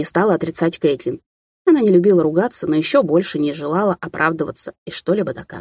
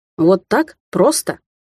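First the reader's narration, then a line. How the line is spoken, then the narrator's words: Angry. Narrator (Russian): рассердился Гарри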